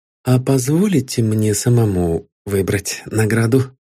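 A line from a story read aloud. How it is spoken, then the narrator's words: Tired inquiry. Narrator (Russian): Усталым голосом осведомился статский советник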